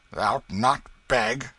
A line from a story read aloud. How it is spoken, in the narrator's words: exclaimed Hugo ... with surprise